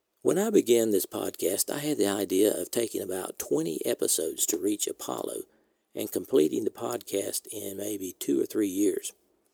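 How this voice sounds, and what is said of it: American Southern accent. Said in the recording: “an American speaking English with a southern accent.”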